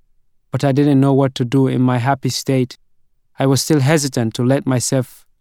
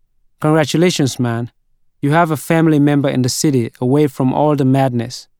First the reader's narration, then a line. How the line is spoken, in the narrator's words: Mohammed said